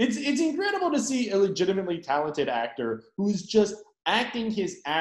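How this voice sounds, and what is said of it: Usual voice. Nothing is said of it.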